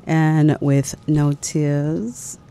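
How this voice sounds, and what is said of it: Poor put-on English accent. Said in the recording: “That's my English accent. Terrible.”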